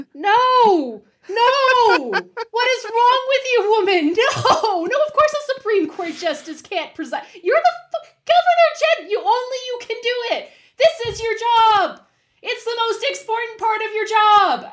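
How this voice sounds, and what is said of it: Screaming, shouting angrily. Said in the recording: “stop screaming”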